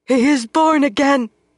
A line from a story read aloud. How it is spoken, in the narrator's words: Gitara cried